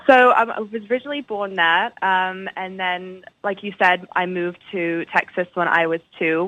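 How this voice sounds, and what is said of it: Mid-Atlantic mixed English-Texan accent. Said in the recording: “I have a very unique accent, to say the least. I sort of feel like I've been stuck in the middle of the Atlantic.”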